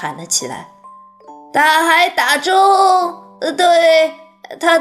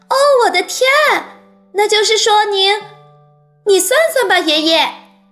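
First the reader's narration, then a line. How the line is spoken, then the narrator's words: Exclaiming. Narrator (Chinese): 查理叫道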